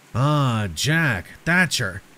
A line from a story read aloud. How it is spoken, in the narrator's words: said, his voice sending shivers down my spine